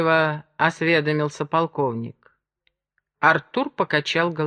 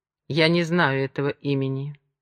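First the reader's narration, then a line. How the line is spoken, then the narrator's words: Dry repetition. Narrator (Russian): сухо повторил он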